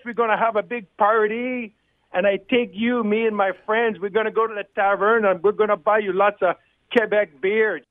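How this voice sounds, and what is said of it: Unconvincing put-on French Canadian accent. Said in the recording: “Nice try, Jacques. Helps if you can get somewhere within a few countries of the accent that you're trying to do.”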